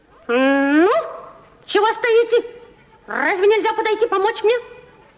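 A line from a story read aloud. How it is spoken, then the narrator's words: Shouting. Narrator (Russian): Он закричал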